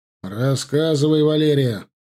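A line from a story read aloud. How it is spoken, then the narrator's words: Stern, insistent demand. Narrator (Russian): строго с нажимом потребовал он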